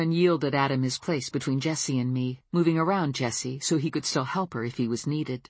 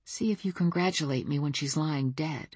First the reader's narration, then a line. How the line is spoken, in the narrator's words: I said very quietly